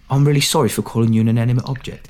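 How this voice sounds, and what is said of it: Put-on Cockney accent. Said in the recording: “I really apologize for my Cockney accent, but I'm doing my best”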